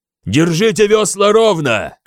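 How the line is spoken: Shouted command. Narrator (Russian): крикнул я 20 гребцам того борта, что был обращен к берегу

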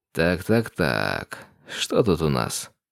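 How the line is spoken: Drawled. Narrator (Russian): протянул я

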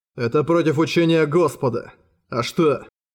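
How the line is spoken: Calm reply. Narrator (Russian): спокойно ответил Ангасун

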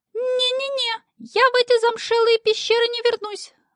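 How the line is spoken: Squeaking. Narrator (Russian): запищал квартирант

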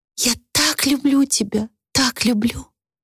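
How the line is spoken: Whispered. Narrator (Russian): прошептала Люси

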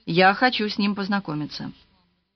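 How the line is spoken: Calm. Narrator (Russian): Эленор спокойно сказала

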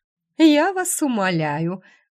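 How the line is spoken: Snorting. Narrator (Russian): графиня фыркнула

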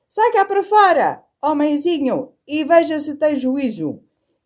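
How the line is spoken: Whale shouting down throat. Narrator (Portuguese): a baleia gritou pela garganta abaixo

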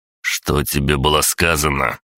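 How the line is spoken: Growled. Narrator (Russian): рыкнул я

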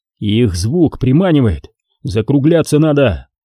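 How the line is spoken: Shouted again. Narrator (Russian): снова крикнул Виктор

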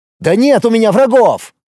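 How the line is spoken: Desperate shout. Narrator (Russian): отчаянно закричал Тарас

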